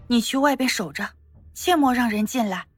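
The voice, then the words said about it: Quiet, hushed speech. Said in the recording (Chinese): “小声的”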